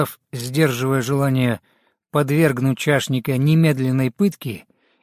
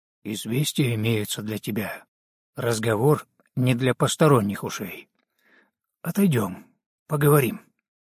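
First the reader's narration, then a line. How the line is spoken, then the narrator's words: Quiet whisper. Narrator (Russian): шепотом, негромко произнес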